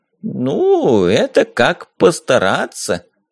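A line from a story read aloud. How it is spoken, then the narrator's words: Drawled, mage. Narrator (Russian): протянул маг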